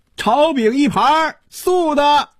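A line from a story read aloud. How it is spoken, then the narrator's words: Opera-style theatrical call. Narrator (Chinese): 一声像京戏里叫板一样的喊声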